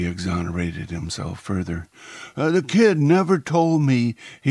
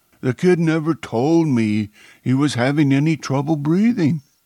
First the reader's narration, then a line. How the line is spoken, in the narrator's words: she asked frantically